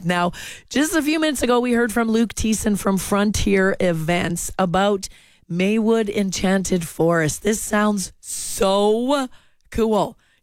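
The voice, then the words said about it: Hoarse, froggy voice from a cold. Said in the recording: “a little bit of a summer cold. Feeling a little froggy in the throat today”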